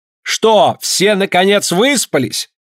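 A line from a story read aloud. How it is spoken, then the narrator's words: Shout over children's laughter. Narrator (Russian): учительница под смех детей, который уже не прекращался, крикнула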